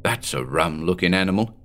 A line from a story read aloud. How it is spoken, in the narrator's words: Officer Williams muttered